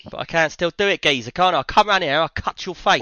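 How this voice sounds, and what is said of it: London geezer accent impression. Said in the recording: “You're pretty good... he talks kind of like that, yeah. You got it.”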